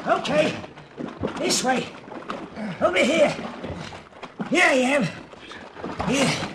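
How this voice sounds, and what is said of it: Yelling. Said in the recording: “keep yelling”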